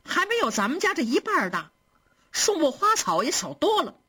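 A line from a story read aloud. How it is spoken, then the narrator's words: Laughing. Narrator (Chinese): 平儿笑着说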